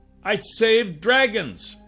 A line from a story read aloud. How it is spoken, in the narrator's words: I yelled back